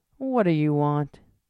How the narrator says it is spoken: Argo grumbled softly

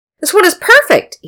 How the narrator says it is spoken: he exclaimed

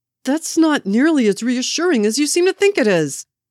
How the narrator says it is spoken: Bucky shouted

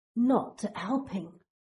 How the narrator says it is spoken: presses out through clenched teeth

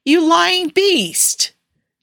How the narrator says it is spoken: Jensen exclaimed

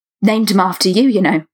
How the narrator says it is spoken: he blurted

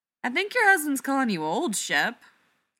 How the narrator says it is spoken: Laura laughs

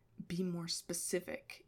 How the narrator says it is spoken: he muttered

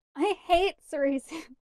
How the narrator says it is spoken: Beemore shouted

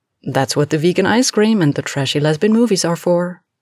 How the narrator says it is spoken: Alex replied cheerfully

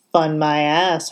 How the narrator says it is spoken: Hardison grumbled

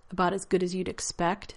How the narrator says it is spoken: John said, his tone full of self-deprecation

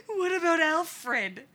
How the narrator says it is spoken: the voice wheezes

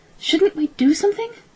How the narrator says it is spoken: asked Kaylee, anxiously

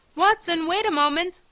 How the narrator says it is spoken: I called out

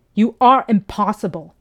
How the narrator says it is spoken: he shouted

